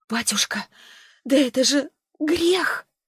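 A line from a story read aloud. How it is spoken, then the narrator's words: Barely audible. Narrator (Russian): еле слышно сказала Марфа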